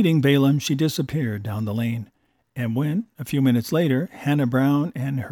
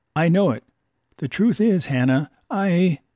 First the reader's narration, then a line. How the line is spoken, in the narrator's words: said he meekly